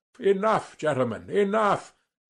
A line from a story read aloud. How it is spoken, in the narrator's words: Sverkov cried authoritatively